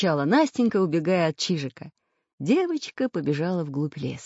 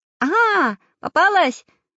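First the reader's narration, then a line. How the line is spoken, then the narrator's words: Triumphant shout. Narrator (Russian): закричал Прутик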